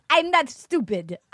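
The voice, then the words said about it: Put-on Russian accent. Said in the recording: “Here comes my Russian accent.”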